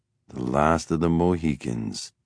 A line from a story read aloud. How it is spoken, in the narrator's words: Matthew mumbled